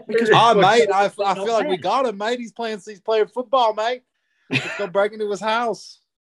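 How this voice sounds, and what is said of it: Bad put-on Australian accent. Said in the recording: “That was the most Australian accent I ever heard. ... That was bad.”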